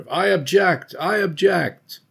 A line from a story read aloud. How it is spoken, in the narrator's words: cries are heard of